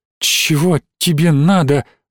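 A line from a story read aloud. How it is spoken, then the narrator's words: Forced out, offended. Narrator (Russian): выдавила Алина и добавила обиженно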